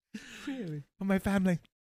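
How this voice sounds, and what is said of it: Imitates another person's voice. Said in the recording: “She goes all Keira Knightley, really? And just like the big teeth”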